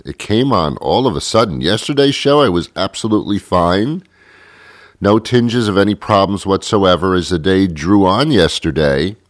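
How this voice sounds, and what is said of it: Voice affected by a cold. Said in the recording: “can you hear it in my voice? I have a cold.”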